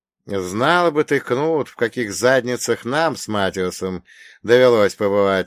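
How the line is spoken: Laughing. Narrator (Russian): рассмеялся Бунге

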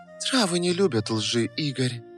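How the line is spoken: Velvety voice. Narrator (Russian): продолжила она своим бархатным голосом

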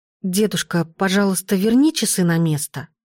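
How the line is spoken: Quiet. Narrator (Russian): Я негромко произнесла

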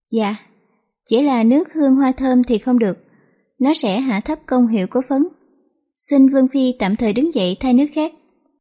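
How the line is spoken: Smiling. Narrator (Vietnamese): Giang Tiểu Lâu mỉm cười nói

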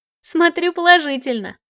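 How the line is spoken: Laughing. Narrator (Russian): рассмеялась

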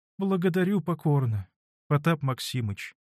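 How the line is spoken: Dejected, sad voice. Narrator (Russian): каким-то упалым, грустным голосом проговорила

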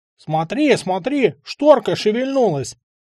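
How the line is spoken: Sudden shout. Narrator (Russian): закричал вдруг Егорочкин

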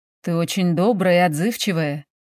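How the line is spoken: Soft muffled laugh. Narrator (Russian): тихонько смеется мне в макушку

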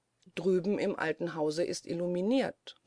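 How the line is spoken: Plain. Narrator (German): sagte der Famulus

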